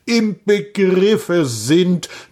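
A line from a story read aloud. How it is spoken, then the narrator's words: Stern old man repeating. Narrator (German): wiederholte der Alte streng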